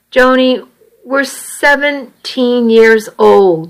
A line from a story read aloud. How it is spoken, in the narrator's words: said miserably